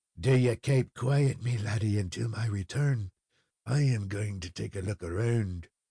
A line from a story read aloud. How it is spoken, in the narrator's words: he whispered to Fred